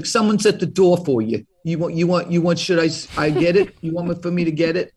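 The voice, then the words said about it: Exaggerated bad Brooklyn accent. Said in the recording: “I talk like that with a really bad Brooklyn accent.”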